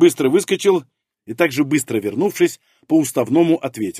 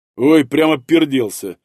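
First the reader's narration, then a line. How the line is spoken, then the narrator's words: Displeased snap. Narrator (Russian): недовольно огрызнулся Жир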